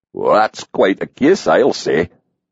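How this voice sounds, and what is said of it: Rich Scottish brogue. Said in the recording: “Tavis's rich brogue rolled over her.”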